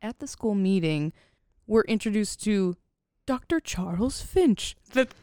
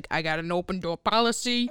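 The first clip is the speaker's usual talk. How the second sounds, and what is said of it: Impression of the guidance counselor. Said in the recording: “That's a great impression”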